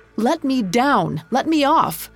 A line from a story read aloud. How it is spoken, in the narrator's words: shouting